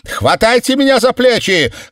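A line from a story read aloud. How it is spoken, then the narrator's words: Shouted. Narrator (Russian): крикнула Мор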